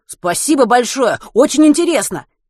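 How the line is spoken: Eager exclamation. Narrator (Russian): горячо воскликнул Матвей

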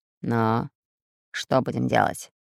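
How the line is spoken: Menacing hiss. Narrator (Russian): грозно прошипел Буль-Буль

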